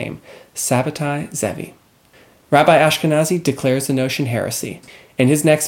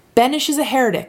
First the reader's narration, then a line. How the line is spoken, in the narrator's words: shouted